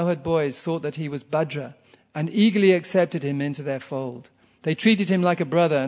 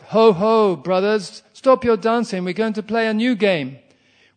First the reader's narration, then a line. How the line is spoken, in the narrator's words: Krishna called out